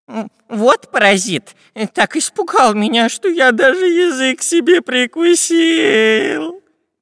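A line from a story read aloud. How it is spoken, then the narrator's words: Whining man. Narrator (Russian): прохныкал длинноносый шпион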